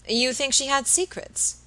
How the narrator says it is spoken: Robert asked rather eagerly

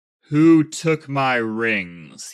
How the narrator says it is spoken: boomed

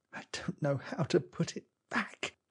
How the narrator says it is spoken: put his face in his hands and mutter

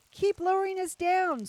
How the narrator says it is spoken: screamed Rapunzel

